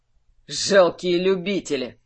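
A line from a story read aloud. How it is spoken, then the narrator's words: Curt retort. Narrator (Russian): выдал на это Ханг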